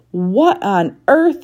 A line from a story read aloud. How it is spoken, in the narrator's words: Miss Girk sputtered